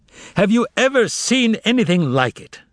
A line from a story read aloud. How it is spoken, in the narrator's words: he cried out in exasperation